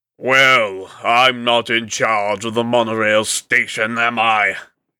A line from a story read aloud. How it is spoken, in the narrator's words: She snarled